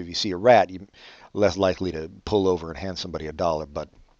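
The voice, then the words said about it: Weird, almost Southern accent. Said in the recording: “I have a weird accent, don't I? It's almost Southern, but not quite.”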